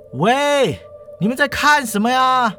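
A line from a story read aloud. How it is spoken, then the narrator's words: Shouting. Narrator (Chinese): 他大叫说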